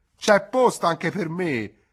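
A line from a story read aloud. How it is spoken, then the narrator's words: Joking shout. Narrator (Italian): Gridava per ridere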